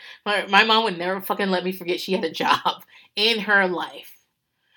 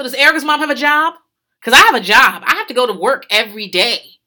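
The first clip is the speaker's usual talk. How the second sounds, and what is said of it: Imitates another person's voice. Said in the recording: “As I'm doing this impression, I'm also doing an impression of myself”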